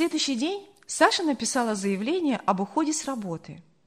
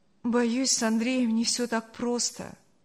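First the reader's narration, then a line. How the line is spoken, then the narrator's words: Sad. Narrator (Russian): грустно сказала Саша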